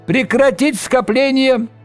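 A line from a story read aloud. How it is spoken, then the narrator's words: High piercing shout. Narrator (Russian): высокий пронзительный голос прокричал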